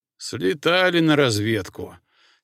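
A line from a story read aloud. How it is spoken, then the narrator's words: Heavy sigh. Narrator (Russian): тяжко вздохнул Кеша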